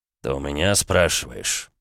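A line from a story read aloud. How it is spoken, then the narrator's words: Angry, through clenched teeth. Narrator (Russian): зло процедил граф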